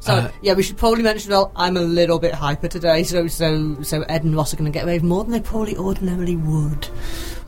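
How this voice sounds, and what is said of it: Hoarse, partly lost voice. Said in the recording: “I'm slightly losing my voice ... standing and singing a lot ... I can barely speak.”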